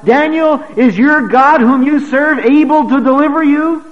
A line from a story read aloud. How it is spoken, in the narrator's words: cried out